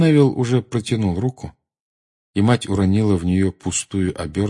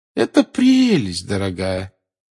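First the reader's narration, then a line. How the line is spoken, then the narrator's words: Forced cheerful tone. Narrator (Russian): сказала бабушка Невилл наигранно веселым голосом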